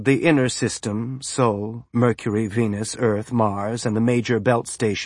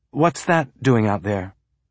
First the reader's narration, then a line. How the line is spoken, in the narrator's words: Naomi asked, and her voice was clear enough